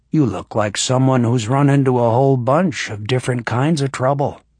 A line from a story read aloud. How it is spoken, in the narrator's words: he said, and his voice was rumbling and kind